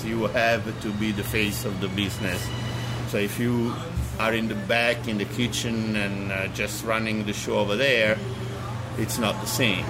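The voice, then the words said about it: Natural Italian accent. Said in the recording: “obviously you can tell my accent is natural. It's not that I try to be Italian.”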